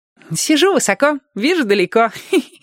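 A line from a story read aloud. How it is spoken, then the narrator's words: Giggling. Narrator (Russian): хихикнул Владик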